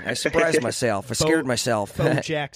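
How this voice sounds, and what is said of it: Southern accent, imitating another person's voice. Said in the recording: “Southern accent. ... I'm trying to do like a Bush thing.”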